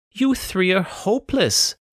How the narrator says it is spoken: Rayburn groaned

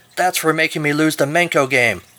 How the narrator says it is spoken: As he died, she shouted

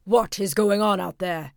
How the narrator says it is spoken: asked the emperor angrily

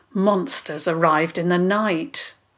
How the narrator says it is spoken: Theo said grimly

